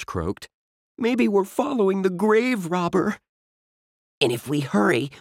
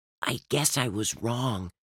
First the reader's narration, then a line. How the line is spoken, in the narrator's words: Dink whispered